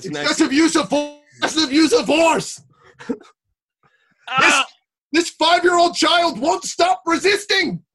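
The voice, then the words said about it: Imitated police officer voice. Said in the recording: “when we're doing the voice, we're both like leaning back and closing our eyes... I'm a cop... That's my impression of a cop”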